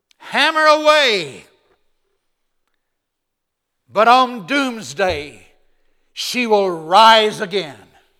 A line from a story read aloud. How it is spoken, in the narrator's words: Luther screamed out